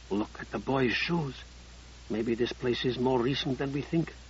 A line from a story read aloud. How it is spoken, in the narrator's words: Collier whispered to Sable